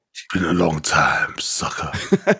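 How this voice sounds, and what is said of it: Duke Nukem character voice. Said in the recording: “sounds like Duke Nukem ... when you make that sound, when you do that voice.”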